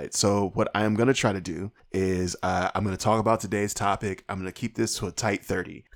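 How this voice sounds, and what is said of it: Hoarse, strained, fading voice. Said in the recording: “I am slowly starting to lose my voice ... My voice is already a little bit on the shredded side.”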